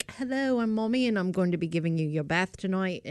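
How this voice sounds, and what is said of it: Put-on English accent. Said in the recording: “anytime I do an English accent”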